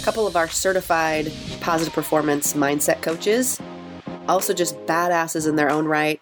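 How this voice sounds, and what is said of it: Stuffy congested voice from cold. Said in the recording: “I'm a little bit stuffed up... Got a little cold, so I apologize if I sound a little stuffy”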